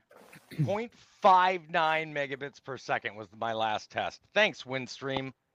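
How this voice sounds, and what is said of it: Sarcastic tone. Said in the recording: “that was sarcasm. ... He doesn't thank you at all, Windstream.”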